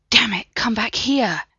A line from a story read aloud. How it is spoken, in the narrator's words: Brendan rasped